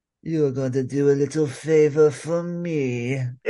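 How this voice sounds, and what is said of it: Joker cartoon villain voice. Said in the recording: “I love how you do that Mark Hamill voice... Mark Hamill's Joker... I do really a really good job with it”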